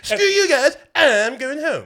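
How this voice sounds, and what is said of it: Cartoon character voice, Cartman impression. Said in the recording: “Don't do the voice. ... Cartman's voice ... you can't do fucking Cartman voice”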